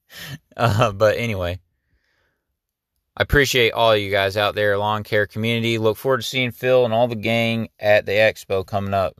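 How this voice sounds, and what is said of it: Strained, worn-out voice. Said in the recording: “I've talked so much. ... My voice is getting messed up.”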